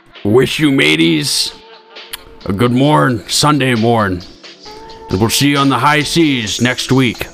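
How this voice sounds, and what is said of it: Pirate character voice. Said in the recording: “I'm gonna do a pirate. ... you do the pirate voice.”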